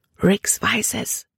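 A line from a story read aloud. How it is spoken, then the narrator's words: Whisper. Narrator (German): flüsterte sie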